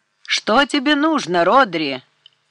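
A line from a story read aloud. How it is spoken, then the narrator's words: Shouting. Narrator (Russian): прокричал Морган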